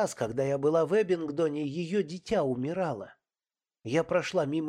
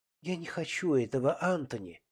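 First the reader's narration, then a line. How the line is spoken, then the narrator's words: Quiet, fearful voice. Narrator (Russian): тихонько произнесла она, и я услышал в ее голосе страх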